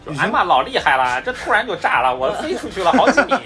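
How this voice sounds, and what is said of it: Put-on regional accent. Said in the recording (Chinese): “还带口音，还带口音的”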